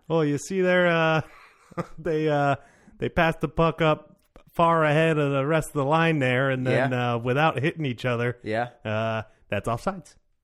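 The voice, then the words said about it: Put-on Canadian accent. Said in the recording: “Somebody with a Canadian accent, tell me what's going on.”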